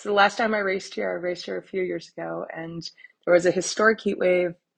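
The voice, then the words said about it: Slightly croaky, creaky voice. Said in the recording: “I am super jet lagged. You can probably hear in my voice that I'm a little croaky creaky.”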